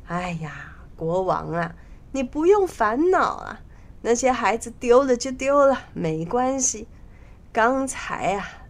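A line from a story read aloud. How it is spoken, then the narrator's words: Laughing. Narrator (Chinese): 国丈笑道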